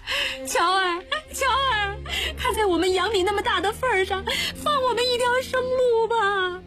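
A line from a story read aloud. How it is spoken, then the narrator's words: Weeping plea. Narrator (Chinese): 吴生老婆哭着说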